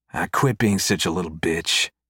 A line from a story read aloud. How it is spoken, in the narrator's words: Monty mutters under his breath